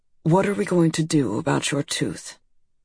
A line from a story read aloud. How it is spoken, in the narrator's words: He looked at me calmly and said